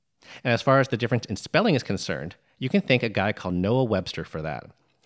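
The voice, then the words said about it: Neutral American accent. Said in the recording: “my neutral American accent”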